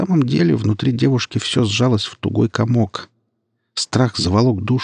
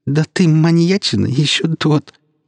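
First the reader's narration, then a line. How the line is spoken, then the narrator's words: Loud laughter. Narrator (Russian): расхохоталась Нелли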